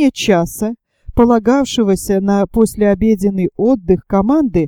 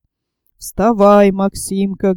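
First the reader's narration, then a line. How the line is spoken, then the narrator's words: Gentle tone. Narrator (Russian): говорил ласковым тоном матрос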